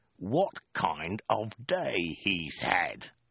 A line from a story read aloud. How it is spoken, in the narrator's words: he hissed